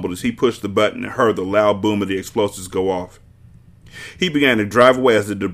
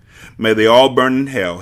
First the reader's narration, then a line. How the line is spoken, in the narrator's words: said as he chuckled to himself